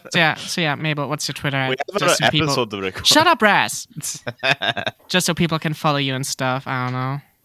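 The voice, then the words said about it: German accent. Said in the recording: “With a German accent? ... my accent is not that bad. ... It is. It kind of is.”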